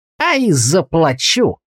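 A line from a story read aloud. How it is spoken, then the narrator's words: Spiteful smiling. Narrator (Russian): злобно улыбнулся лавочник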